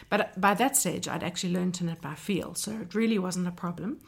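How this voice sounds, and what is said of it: Croaky, hoarse voice. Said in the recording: “please excuse my voice. I don't usually sound so croaky.”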